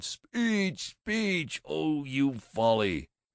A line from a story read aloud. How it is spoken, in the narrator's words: The Boosters cheered, they laughed, they wept, they cried